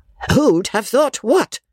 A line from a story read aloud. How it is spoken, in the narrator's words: cried Miss Crawley